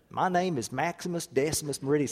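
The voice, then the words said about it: Put-on Oklahoma accent. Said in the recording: “Can't imagine how it would have been with his Okie accent.”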